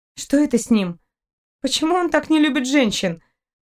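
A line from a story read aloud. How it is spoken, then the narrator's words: Grumbling. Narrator (Russian): проворчала Кристина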